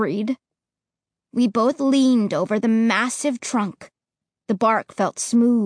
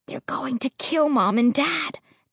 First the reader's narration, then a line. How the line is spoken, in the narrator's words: Josh whispered, squeezing it in fear